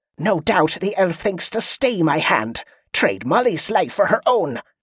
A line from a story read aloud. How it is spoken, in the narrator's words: Kelisandra snarled